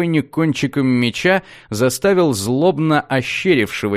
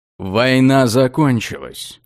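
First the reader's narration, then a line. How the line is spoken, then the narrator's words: Cold. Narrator (Russian): холодно сказал маг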